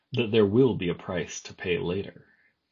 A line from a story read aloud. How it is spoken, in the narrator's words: a voice behind her said, a low and cunning voice, a voice that had a coax and a wheedle and a sly laugh all mixed up in it together